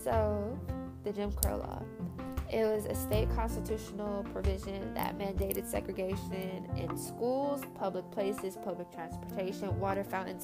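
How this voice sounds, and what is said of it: Congested, stuffy-nosed voice. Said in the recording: “I sound congested, I apologize. It's my allergies.”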